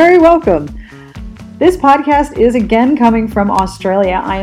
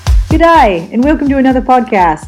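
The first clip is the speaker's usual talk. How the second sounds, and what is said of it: Put-on Australian accent. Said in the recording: “my Australian accent”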